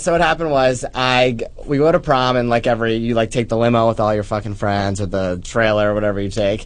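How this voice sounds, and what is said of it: New Jersey accent. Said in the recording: “I'm from the really classy state of New Jersey ... As you can tell by the gay Fran Drescher accent.”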